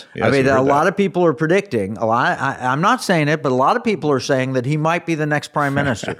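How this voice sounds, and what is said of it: Imitates another person's voice. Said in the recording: “I was just trying to give my best President Trump impersonation.”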